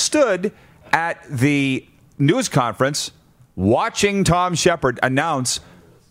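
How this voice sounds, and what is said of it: Usual voice. Nothing is said of it.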